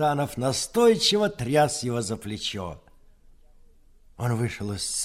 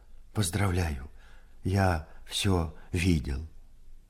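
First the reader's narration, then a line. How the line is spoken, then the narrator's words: Trembling voice. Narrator (Russian): дрогнувшим голосом сказал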